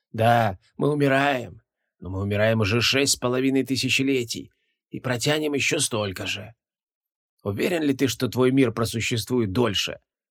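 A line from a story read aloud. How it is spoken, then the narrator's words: Vicious creaking, muffled by mask. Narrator (Russian): Злобно проскрипел монстр из-под маски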